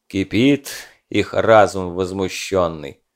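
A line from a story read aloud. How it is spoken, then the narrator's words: Sighing. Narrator (Russian): вздохнул отрядный священник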